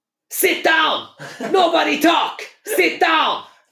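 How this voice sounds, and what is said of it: Imitates another person's voice, shouting. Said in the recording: “Pep impression ... You sound like the dictator from”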